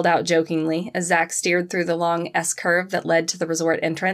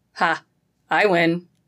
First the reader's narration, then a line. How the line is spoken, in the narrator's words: he said with a quick laugh